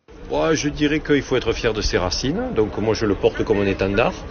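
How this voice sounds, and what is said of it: Southern French accent. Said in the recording (French): “l'accent que j'ai ... l'accent du Sud”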